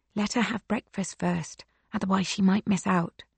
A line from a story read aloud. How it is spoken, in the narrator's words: Silke whispers